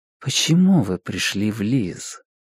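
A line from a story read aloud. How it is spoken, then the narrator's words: Quiet. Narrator (Russian): Сирейнис тихо произнесла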